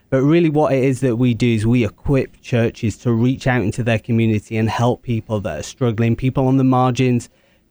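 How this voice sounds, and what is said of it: British accent. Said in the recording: “started originally in the UK, hence the accent.”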